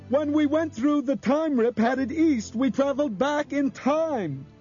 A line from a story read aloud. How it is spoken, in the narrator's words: shouted